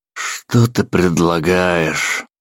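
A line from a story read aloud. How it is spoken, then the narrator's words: Sighing. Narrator (Russian): вздохнул Ламонт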